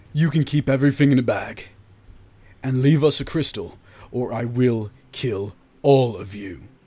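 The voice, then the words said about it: Raised, loud threatening voice. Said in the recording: “raise my voice.”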